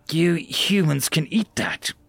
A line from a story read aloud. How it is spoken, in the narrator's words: Celadol exclaimed, practically losing his mind on the absurdity of what he was hearing